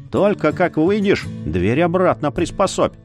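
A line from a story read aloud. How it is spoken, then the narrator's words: Smirking grunt. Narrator (Russian): Яр хмыкнул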